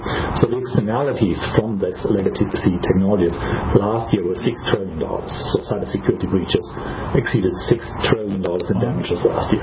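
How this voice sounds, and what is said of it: German accent. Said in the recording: “as you can probably tell by my accent, I'm from ... Germany”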